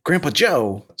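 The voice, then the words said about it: Imitates another person's voice, poorly. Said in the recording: “my Christopher Walken impression. It's terrible.”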